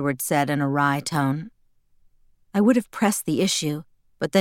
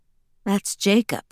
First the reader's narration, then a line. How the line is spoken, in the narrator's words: I sighed